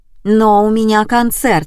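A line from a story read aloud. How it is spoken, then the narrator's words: Exclaiming. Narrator (Russian): воскликнула Алина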